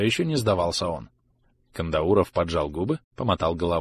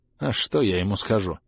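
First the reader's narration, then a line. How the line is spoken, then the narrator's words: Sigh. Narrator (Russian): вздохнул Брэндон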